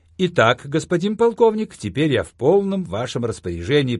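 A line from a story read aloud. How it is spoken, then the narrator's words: Cheerful, over the phone. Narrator (Russian): произнес я в трубку жизнерадостным голосом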